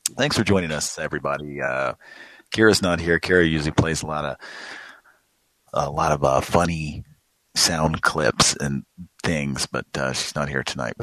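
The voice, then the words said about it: Slightly off voice from a cold. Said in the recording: “sore throat. Well, not really sore throat. I'm just recovering from a little cold here, so my voice is a little off.”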